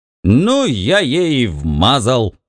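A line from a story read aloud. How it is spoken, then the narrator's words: Shouted. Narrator (Russian): выкрикнул Бикс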